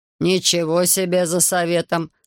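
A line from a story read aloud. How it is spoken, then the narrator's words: Snort. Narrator (Russian): хмыкнул Потапов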